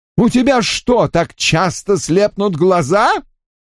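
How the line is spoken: Angry shout. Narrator (Russian): Гневно закричал метаморфоз

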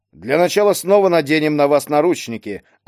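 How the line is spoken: Plain. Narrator (Russian): ответил Ступин

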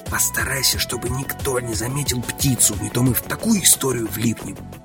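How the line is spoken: Whispered. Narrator (Russian): я прошептал

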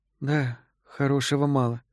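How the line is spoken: Whispered. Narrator (Russian): прошептала Энн

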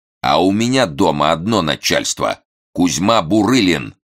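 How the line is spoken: Barking. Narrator (Russian): рявкнул миллионщик

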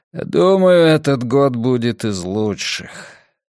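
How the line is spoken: Softer, with a long sigh. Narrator (Russian): Рейдер протяжно вздохнул и сказал, уже помягче

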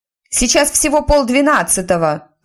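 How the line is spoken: Shouted back. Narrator (Russian): крикнула в ответ Тиффани

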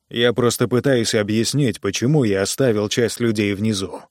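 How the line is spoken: Plain. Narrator (Russian): сказал Джо

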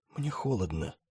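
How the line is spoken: Barely audible. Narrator (Russian): чуть слышно сказал Снегги

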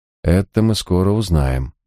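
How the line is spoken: Grim pronouncement. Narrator (Russian): мрачно изрек Харснет

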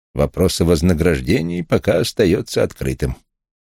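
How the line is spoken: Dry tone. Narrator (Russian): сухо произнес Вулф

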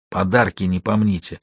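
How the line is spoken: Whispered. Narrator (Russian): Деламбро шепнул

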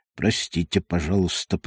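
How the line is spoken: Mumbling. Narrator (Russian): пробормотал он

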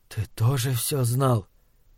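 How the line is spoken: Whispered. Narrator (Russian): Он прошептал

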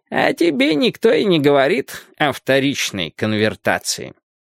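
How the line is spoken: Muffled old man's voice. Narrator (Russian): глухо произнес старик

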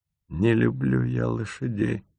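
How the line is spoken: Barely audible, thick-tongued. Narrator (Russian): еле слышно произносит Кассандра ватным языком

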